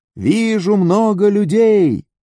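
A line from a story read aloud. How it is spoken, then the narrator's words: Watchman's shout. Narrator (Russian): Дозорный, что стоял на башне в Израиле, крикнул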